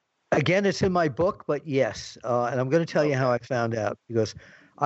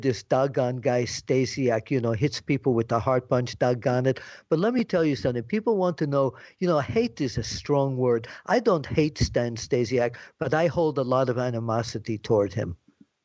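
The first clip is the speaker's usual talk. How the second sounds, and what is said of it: Impression of wrestler Bruno Sammartino. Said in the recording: “my Bruno imitation”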